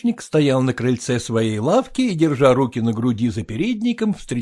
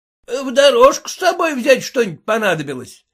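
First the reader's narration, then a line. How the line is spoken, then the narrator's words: Shout. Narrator (Russian): крикнул он им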